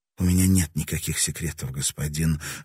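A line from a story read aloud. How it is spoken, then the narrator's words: Hoarse, dry throat. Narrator (Russian): ответила она хрипло, потому что горло вдруг пересохло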